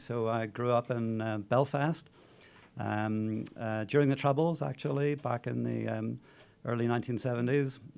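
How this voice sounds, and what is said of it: Irish accent. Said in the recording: “I have an Irish accent.”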